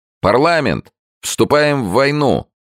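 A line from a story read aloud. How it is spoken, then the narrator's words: Man shouting. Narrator (Russian): мужчина крикнул Сомсу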